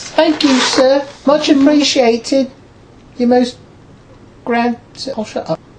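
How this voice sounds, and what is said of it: Put-on accent. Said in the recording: “Drop the accent.”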